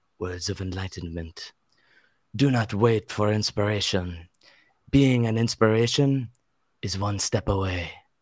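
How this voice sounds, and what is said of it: Antonio Banderas-style Spanish accent. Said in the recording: “do like a Spanish accent while reading it ... a very tasteful Spanish accent while reading it ... I'm gonna do like an Antonio Banderas reading of it”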